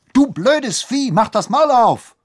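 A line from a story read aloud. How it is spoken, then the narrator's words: Shouting. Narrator (German): schrie sie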